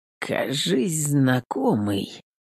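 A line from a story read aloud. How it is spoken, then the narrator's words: Muttered. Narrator (Russian): пробормотал Третьяк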